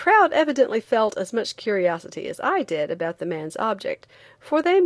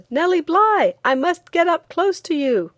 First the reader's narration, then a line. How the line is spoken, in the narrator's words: one man on the outskirts of the crowd who shouted